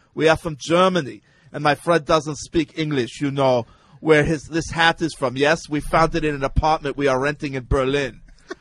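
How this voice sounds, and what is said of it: Put-on German accent. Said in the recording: “in a German accent”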